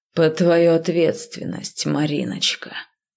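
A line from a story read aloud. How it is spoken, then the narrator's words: Unctuous voice. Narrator (Russian): елейным голосом сообщил мой уже шеф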